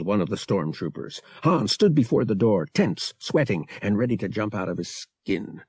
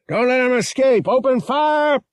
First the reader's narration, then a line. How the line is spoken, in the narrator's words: yelled the stormtrooper officer